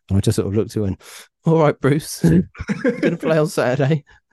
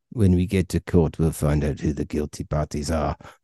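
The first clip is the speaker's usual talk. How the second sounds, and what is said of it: Terrible put-on South African accent. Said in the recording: “I'm going to do a terrible South African accent there.”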